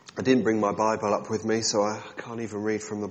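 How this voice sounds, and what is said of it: Congested voice from a cold. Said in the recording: “this isn't my real voice. I've got a cold”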